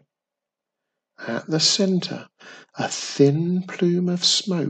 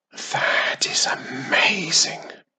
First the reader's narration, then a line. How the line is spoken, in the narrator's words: whispered Wiz